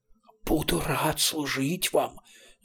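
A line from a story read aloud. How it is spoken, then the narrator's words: Dignified monstrous hiss. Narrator (Russian): с достоинством прошипело двенадцатиглазое чудище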